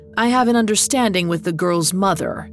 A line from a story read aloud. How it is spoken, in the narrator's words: Turnus growled